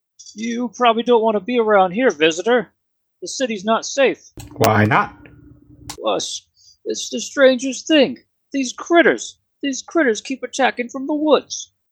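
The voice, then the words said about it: Character voice with unusual accent. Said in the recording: “That's quite the accent there. Where are you from?”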